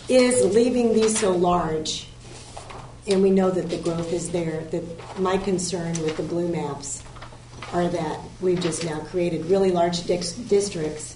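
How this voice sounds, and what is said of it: Losing voice, squeaky strained. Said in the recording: “I'm losing my voice. ... I still squeak”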